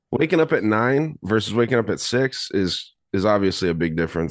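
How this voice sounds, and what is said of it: Slightly shaky, just-woken voice. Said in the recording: “if my voice sounds a little shaky, it's because I'm just waking up”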